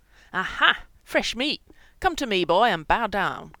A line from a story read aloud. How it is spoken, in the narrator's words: bellowed the dancing Chris